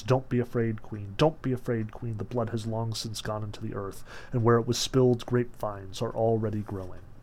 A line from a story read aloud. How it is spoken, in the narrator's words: voices she could not make out whose whispered in both her ears